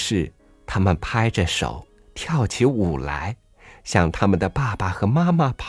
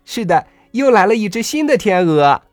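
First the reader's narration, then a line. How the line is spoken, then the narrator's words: Joyful children shouting. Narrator (Chinese): 别的孩子也兴高采烈的叫起来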